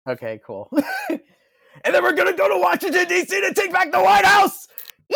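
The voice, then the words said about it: Imitates another person's voice, shouting. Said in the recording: “do an impersonation of it ... the whole Howard Dean thing”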